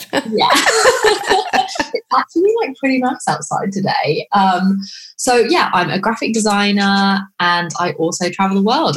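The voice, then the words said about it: British accent. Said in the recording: “I'm from the UK. I'm sure you can tell by the accent ... So British”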